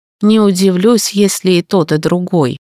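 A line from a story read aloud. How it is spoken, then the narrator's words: Gloomy. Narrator (Russian): мрачно сказал Орда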